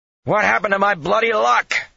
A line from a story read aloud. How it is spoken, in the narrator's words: he shouted